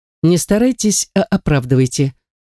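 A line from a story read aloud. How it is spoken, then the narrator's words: Dry curt remark. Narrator (Russian): сухо бросает Мэтт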